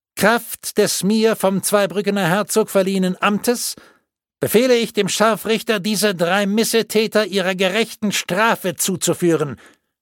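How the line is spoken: Official calling out to crowd. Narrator (German): rief der Stadtvogt hinaus in die Menge

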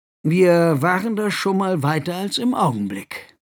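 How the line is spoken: Sighing. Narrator (German): seufzte

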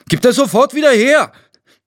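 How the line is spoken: Called out. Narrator (German): rief Tino

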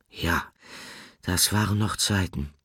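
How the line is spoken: Sighing. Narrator (German): seufzte Nickel

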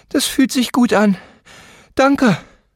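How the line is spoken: Panting. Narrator (German): keuchte sie

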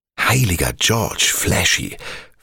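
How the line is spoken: Whisper. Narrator (German): flüsterte Speed schließlich

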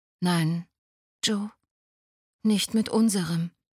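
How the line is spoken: Calm reply. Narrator (German): erwiderte Adi ruhig

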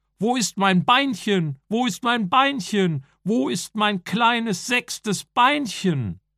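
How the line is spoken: Old man shouting. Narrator (German): Aber der Urgroßvater Sumsemann schrie und sagte

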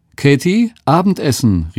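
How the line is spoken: Calling out. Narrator (German): rief nach ihrer Tochter

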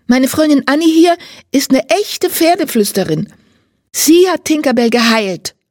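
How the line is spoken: Calling out to reporter. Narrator (German): ruft einem Reporter zu

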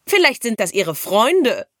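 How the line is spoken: Mocking. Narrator (German): spottete Luzi

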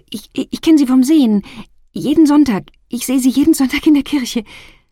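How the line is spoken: Stammered. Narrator (German): stotterte

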